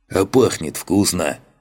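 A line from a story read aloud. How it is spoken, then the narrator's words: Amused snort. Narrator (Russian): хмыкнул он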